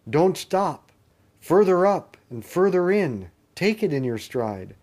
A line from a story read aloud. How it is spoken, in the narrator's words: the unicorn cried out